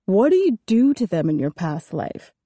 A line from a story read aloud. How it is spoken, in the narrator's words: He laughed loudly